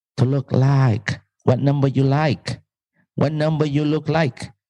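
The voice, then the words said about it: Put-on Vietnamese accent. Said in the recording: “my Vietnamese accent”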